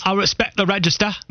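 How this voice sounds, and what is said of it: Russell Brand impression. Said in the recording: “Can you give us more Russell Brand impersonations? ... It does sound a little bit like him. ... No, it's pretty good. It's very good.”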